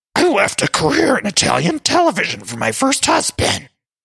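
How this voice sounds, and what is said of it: Luann impression, Grover-like Muppet voice. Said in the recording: “let me try to do my Luann voice ... my Luann impression, which started as, I believe, a Cookie Monster voice, has now morphed into a Grover voice from Sesame Street ... So it's really a Grover voice at this point.”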